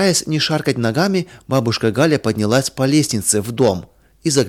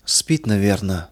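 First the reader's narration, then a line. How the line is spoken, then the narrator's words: Old woman's whisper. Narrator (Russian): прошептала старушка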